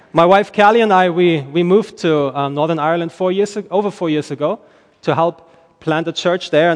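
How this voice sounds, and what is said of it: German accent in English. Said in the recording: “I am originally from Germany... I don't sound Irish when I speak English. I sound more like Arnold Schwarzenegger”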